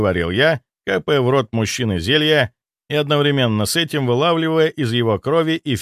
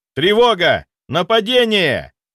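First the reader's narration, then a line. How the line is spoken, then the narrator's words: Yelled alarm. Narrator (Russian): заорал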